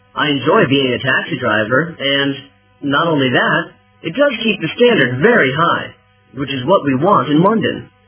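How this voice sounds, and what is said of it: West Country accent, not Cockney. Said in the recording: “still a country boy because I've still got that accent in me. I haven't really got a typical London Cockney accent”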